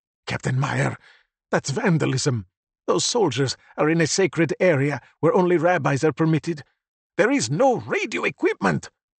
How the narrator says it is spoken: Sandro's father gasped

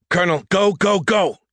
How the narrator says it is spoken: Derek shouted

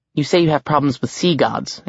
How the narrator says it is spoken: Annabeth said

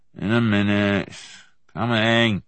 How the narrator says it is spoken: Robin gave a kind of formless growl and mumbled

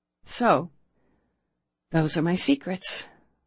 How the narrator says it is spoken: Sydney sighed

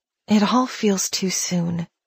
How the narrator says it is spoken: she whispered

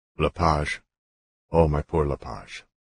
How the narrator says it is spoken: said quietly

